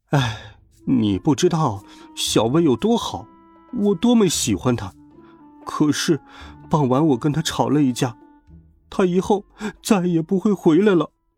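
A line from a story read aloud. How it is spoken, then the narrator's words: Sighing. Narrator (Chinese): 四眼田鸡叹了口气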